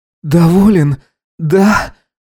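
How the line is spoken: Exhaled, growing louder. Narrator (Russian): выдохнул он, постановая громче

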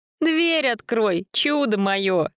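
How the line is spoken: Giggling. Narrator (Russian): хихикнула

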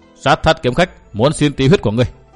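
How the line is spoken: Dry, faintly mocking reply. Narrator (Vietnamese): Nguyễn Lộc cười nhạt đáp giọng khô khan

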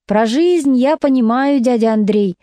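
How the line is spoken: Pained exclamation. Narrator (Russian): воскликнул Васька с болью

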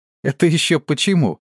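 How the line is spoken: Girl's laughing question. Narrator (Russian): смеясь спросила девчонка

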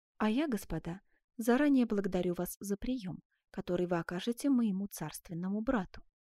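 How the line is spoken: Tender queenly voice. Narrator (Russian): нежным голосом добавила королева Элеонора

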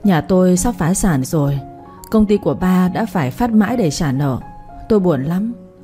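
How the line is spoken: Sighing, near tears. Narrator (Vietnamese): Mai Lan bỗng dưng muốn khóc, cô không nén được mà thở dài thốt ra một câu

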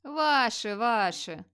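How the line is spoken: Muttering old troll woman. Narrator (Russian): бормотала старая тролиха Блоса

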